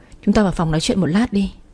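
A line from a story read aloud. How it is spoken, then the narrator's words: Stammering. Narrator (Vietnamese): Tôi lắp bắp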